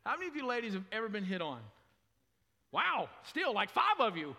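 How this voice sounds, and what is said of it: Southern American accent, drawn-out vowels. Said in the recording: “not only am I American, but I'm a Southern American, and we like to hold things a little longer”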